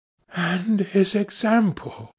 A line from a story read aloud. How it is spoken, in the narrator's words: she whispered to herself